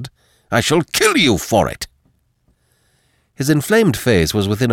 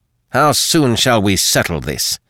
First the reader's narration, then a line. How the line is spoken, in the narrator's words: snapped Chabrillane, livid with a very real fury